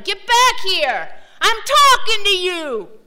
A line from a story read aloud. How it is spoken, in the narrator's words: Cal shouted